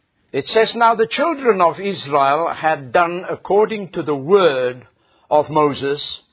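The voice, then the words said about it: Speaks English with an accent. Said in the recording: “even by hearing it with my accent”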